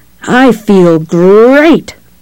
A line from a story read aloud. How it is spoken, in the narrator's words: Brad Josephson exclaims in a boisterous Tony the Tiger voice